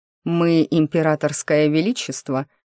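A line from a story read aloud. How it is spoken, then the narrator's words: Smirking snort, uncharacteristic voice. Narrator (Russian): хмыкнул природник, совершенно не звуча как природник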